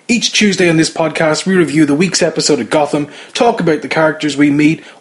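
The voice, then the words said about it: Irish accent. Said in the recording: “yes, that accent is an Irish one”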